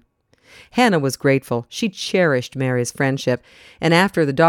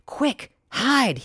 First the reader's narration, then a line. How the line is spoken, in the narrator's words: he whispered urgently